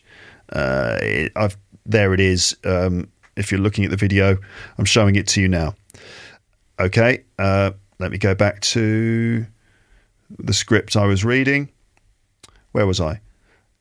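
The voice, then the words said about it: British RP English accent. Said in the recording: “the phonemic chart for British RP English, which is basically the accent I have ... I speak like this, so this is the accent I have”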